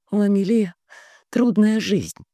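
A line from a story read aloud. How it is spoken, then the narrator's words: Strained, careful. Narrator (Russian): тщательно подбирая слова, выдавила она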